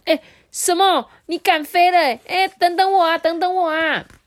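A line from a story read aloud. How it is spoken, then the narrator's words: Loud shouting. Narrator (Chinese): 小狐仙啊，大声叫起来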